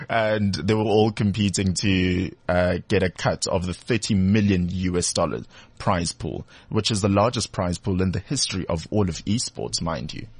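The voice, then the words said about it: South African Durban accent. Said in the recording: “my Durban accent peeping out then sometimes”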